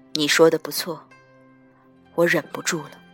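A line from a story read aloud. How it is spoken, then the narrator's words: Low voice, close. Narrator (Chinese): 他沉声到我耳边道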